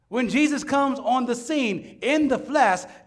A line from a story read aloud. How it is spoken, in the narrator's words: John exclaims